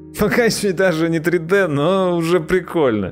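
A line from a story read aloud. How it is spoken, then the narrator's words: Through laughter. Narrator (Russian): Сквозь смех проговорил Сергей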